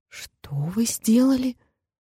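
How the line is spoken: Quiet frightened question. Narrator (Russian): тихо и испуганно переспросила

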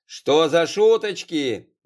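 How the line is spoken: Yelling at full voice. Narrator (Russian): заорал во весь голос

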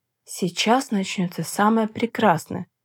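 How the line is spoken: Man whispering in ear. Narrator (Russian): прошептал мужчина на ухо

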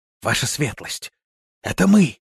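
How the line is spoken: Joyful whisper. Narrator (Russian): радостно прошептал Шава

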